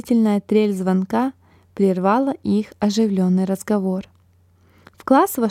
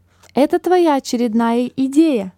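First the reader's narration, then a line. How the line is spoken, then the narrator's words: Shouted out. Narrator (Russian): выкрикнул кто-то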